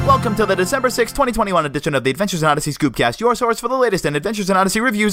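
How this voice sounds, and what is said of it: Talking very fast. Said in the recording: “why I'm talking so fast, and I'm talking so fast”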